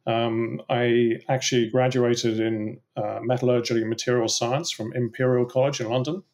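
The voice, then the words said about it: English accent. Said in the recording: “you can probably tell from my accent that I grew up in England”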